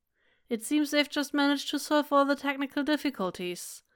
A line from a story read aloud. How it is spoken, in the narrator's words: Meng Yao says blandly